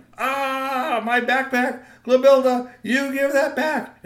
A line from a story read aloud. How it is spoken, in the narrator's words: he screamed